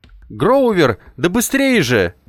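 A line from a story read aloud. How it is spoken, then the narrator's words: Exhausted shout. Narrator (Russian): прокричал я из последних сил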